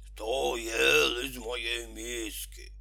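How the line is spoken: Growled. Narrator (Russian): Медведица мама зарычала

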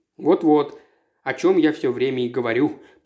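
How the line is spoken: Grumbling from behind. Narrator (Russian): пробурчал у него за спиной Стэнли

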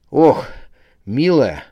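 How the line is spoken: Breathy exhale. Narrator (Russian): выдохнул

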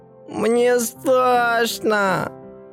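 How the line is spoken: Sobbing harder. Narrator (Russian): Она зарыдала еще сильнее, когда один жонглер посмотрел прямо на нее

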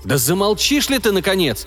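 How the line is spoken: Angry shout. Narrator (Russian): Сердито прикрикнул на девочку один из санитаров

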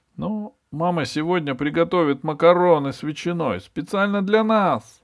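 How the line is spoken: Excited exclamation. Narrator (Russian): воскликнул Эберхард

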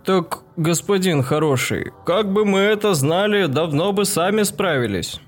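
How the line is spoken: Guilty deep elder voice. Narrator (Russian): виновато пробасил староста

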